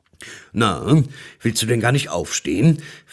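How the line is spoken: Deep-voiced question. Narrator (German): fragte der Weihnachtsmann mit tiefer Stimme

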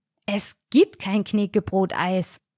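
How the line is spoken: Hissing. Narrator (German): zischte ich

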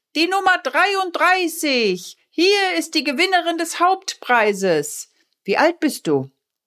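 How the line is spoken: Calling out. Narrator (German): rief

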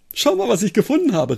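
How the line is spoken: Excited call. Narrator (German): rief er aufgeregt

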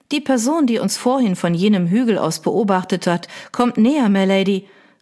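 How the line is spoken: Worried call. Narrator (German): rief Sarah beunruhigt

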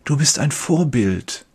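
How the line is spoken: Whispered. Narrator (German): Andere flüstern mir zu

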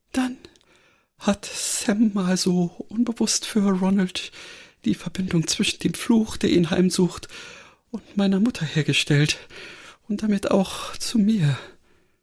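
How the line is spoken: Thin voice. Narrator (German): Granny antwortete mit dünner Stimme

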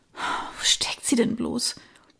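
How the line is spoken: Murmur. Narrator (German): murmelte sie

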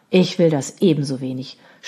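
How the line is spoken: Groaning. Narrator (German): stöhnte Robert

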